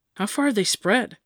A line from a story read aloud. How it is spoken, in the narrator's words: Atalant asked